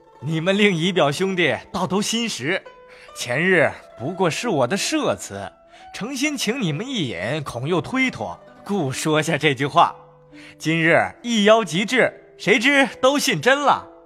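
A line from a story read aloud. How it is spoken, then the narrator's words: Laughing. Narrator (Chinese): 冯子英笑道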